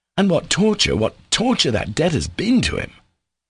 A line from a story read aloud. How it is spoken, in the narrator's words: Alyosha exclaimed in conclusion